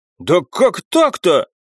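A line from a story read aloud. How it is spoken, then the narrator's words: Exclamation. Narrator (Russian): воскликнул кто-то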